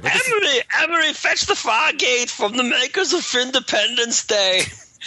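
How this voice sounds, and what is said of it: Imitated alien character voice. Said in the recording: “my Plutonian impression”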